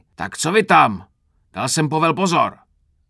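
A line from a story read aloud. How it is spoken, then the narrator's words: Roaring. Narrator (Czech): Zařval Krpata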